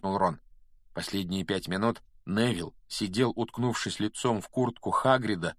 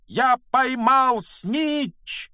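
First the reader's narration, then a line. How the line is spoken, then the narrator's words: Loud shout. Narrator (Russian): громко закричал он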